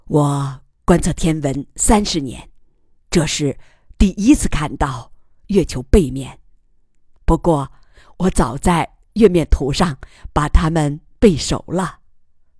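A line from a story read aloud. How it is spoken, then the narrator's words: Heartfelt exclamation. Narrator (Chinese): 由衷地感叹道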